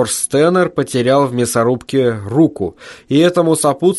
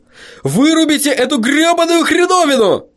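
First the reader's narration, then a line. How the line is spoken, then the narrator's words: Shouting. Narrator (Russian): Джордж Стеннер закричал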